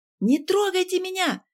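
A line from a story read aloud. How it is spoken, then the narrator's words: Shouting. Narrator (Russian): кричала Ксения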